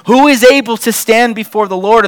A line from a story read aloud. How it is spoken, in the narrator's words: The stubborn men of Beth Shemesh cried out exasperatedly